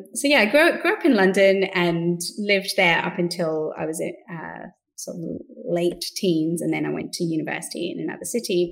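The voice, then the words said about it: London accent with Australian tinge. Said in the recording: “I have a London-ish accent, and then I moved to Australia, so I have a bit of Australian in there ... we sound Australia-ish, bit of both”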